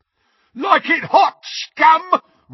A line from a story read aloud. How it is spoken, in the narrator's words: roared Crabbe as he ran